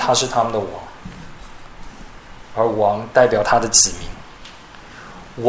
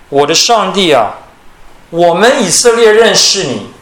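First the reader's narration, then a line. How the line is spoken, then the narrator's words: Calling out. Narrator (Chinese): 他们呼叫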